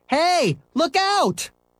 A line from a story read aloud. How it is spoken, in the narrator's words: Scooter yelled